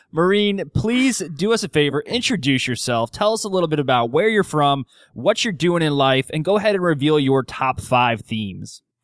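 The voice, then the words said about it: Polished radio announcer voice. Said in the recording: “I am so impressed with your radio voice ... your podcast voice”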